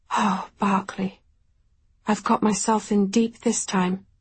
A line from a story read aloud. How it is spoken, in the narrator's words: I said